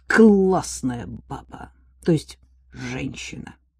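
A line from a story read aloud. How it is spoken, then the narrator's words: Admiring undertone. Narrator (Russian): с восхищением добавил вполголоса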